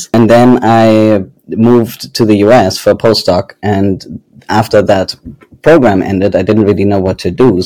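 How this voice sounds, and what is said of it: Faded German accent. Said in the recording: “my accent is German, though it has been fading the last few years”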